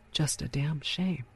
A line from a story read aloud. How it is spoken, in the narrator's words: muttered